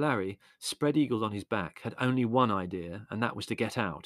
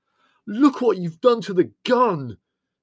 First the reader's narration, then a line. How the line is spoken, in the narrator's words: yelled Leslie furiously